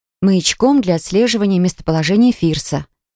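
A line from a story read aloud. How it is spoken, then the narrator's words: Plain. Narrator (Russian): ответила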